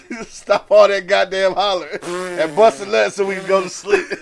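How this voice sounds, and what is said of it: Imitates another person's voice. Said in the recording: “in my Bernie Mac voice”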